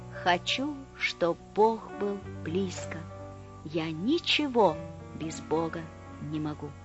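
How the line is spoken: Whisper. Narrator (Russian): Бамбук душой склонился низко-низко, склонился, как былинка на лугу, и прошептал

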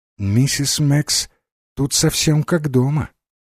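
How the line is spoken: Quiet speech. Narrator (Russian): Джейн тихо сказать миссис Димбл

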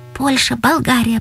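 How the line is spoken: Kind schoolgirl's whisper. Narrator (Russian): прошептала сердобольная девчонка с первой парты

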